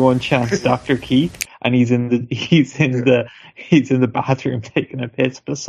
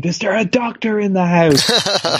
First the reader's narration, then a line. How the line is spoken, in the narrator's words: Adam Pearce screamed